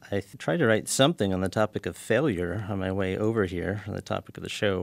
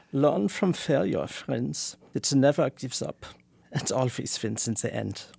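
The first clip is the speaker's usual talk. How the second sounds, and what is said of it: Put-on German-style accent. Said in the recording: “put on your Adorno accent ... Germanic ... you've totally changed it”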